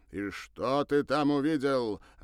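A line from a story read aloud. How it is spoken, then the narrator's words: Angry father's question. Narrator (Russian): рассерженным голосом спросил Бернар отец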